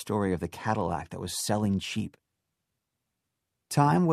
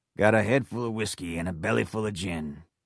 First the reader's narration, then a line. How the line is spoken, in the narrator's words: Dave sang in his rasping voice